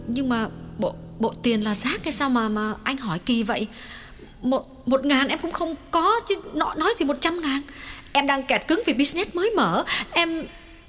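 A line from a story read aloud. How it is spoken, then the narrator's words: Trembling, emphatic. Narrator (Vietnamese): Nàng lặng người một chút rồi run run nhấn mạnh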